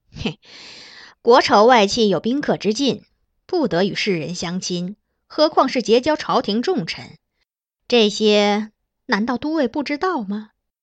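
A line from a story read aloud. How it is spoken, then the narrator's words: Sly chuckle. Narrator (Chinese): 任守忠嘿嘿一笑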